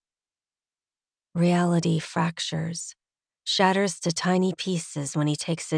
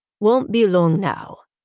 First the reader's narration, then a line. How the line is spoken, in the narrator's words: he says in a heavily accented voice